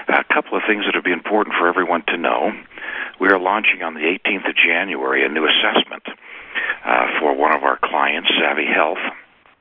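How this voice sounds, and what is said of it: Hoarse, fading voice. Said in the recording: “my voice has been going out for the last couple of days. ... I'll be on mute a couple of times to cough. I picked up a cold over the holidays.”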